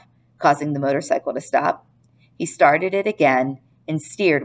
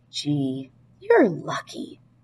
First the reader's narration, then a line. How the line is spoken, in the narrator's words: whispered the boy